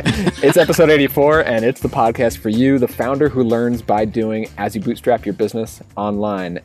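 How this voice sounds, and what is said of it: Tired, jet-lagged voice. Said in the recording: “as you can hear in my voice and in my half a brain that I have right now, I'm pretty jet lagged”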